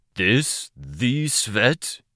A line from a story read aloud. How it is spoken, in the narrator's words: Thud asked in his booming voice